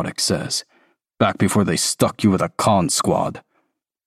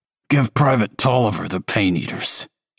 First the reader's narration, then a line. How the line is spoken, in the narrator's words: Elliot rasps